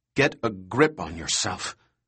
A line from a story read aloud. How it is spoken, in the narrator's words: Harding said coldly